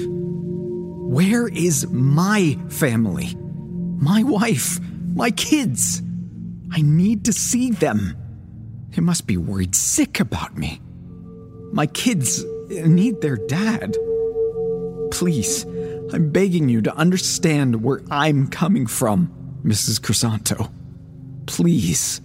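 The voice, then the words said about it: Emotional, pleading voice. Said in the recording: “I'm sorry if I'm getting emotional”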